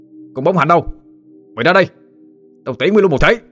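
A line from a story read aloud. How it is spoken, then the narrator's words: Shout. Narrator (Vietnamese): Tâm quát lên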